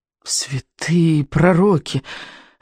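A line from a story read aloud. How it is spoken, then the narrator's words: Hoarse, confident whisper. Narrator (Russian): отозвалась хриплым, но уверенным шепотом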